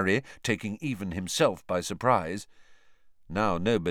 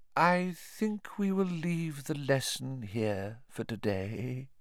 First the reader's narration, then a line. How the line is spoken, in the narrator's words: said Professor Trelawney in her mistiest voice